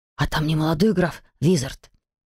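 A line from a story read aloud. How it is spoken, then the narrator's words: Whispering among classmates. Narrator (Russian): пронесся шепоток среди однокурсников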